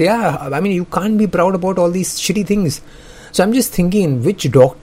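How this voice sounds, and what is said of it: Usual voice. Nothing is said of it.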